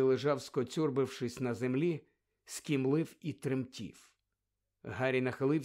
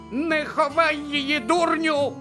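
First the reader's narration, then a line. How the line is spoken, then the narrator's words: Shrieked. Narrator (Ukrainian): заверещала місіс Фік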